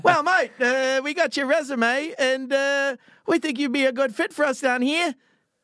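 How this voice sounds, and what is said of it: Exaggerated Australian accent. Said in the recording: “Australian ... accent ... Real Australian accent, and it sounded too much Australian”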